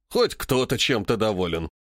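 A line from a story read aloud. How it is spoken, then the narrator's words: Snorting. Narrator (Russian): хмыкнул Греков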